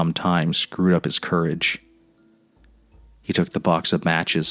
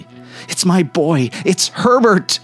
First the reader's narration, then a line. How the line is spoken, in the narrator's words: she cried, struggling mechanically